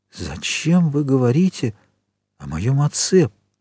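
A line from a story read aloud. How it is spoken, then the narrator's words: Whisper. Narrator (Russian): прошептал он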